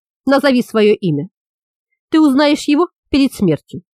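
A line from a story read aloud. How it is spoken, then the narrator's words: Calm reply. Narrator (Russian): спокойно ответила Йока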